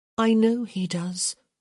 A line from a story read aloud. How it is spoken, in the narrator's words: Hyacinth said sadly